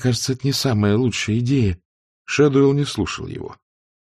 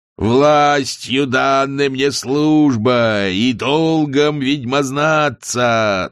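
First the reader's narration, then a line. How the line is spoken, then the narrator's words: Chanting. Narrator (Russian): нараспев начал он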